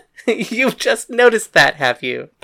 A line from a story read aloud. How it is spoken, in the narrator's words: Paris laughed